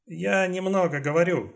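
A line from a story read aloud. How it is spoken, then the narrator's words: Plain. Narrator (Russian): сказал Чанг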